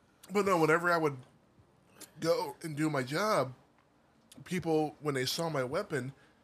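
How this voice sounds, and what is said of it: Strained, losing voice. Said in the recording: “my voice is gone now.”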